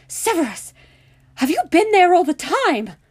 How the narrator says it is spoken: McGonagall cried, pressing one hand to her heart

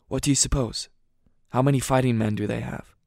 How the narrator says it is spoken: whispered

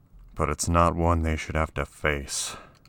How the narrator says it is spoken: Wade grumbled

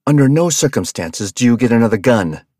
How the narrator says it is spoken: Robbie spat

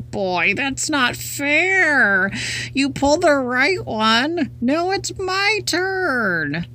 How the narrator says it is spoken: Whined the pigtail

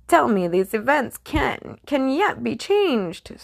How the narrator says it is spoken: Scrooge pleaded

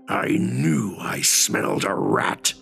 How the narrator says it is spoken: he growls

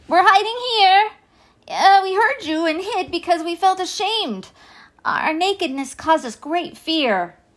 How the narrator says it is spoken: Adam cried

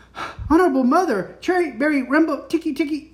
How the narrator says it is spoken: gasped

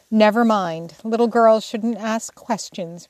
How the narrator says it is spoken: returned Jo sharply

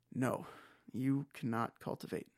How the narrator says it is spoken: he sighed

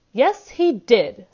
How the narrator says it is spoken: snapped Ogden

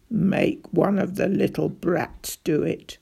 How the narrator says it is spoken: grunted John

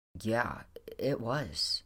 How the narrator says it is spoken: said

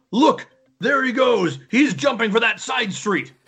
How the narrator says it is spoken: someone yells

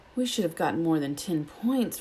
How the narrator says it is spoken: Ron grumbled

